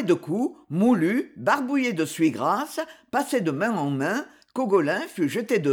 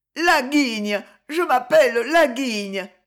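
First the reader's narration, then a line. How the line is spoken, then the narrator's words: Sobbing. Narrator (French): sanglota Cogolin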